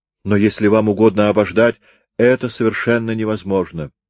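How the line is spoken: Plain. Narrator (Russian): сказал Меннеринг

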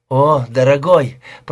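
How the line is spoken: Moaning. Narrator (Russian): простонала Пэм

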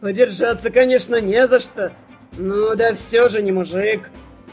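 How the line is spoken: Deep bass over a scream. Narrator (Russian): Басом перекрывая мой визг, заметил удерживающий меня Старх

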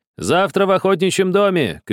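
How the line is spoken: Shouted after someone. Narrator (Russian): кричали ему вслед

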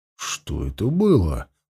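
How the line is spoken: Muttering. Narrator (Russian): пробормотал он

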